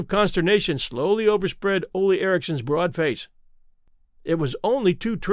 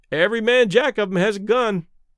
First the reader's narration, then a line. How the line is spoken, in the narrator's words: one of the sailors remarked cheerfully